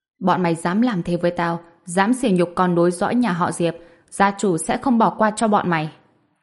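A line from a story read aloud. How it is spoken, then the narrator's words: Loud desperate shouting. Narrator (Vietnamese): Diệp thiếu gia, dáng vẻ thảm hại, hắn ta hét lớn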